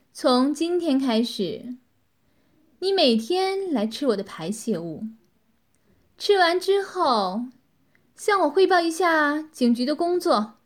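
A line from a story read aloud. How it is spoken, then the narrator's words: Satisfied, cold. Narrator (Chinese): 女子满意的微笑了一下，冷冷的说道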